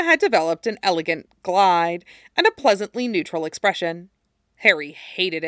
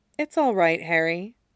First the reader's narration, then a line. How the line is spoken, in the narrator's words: said gently